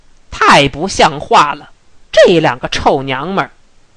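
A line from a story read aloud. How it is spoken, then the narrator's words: Angry. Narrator (Chinese): 大赤包 带着怒气说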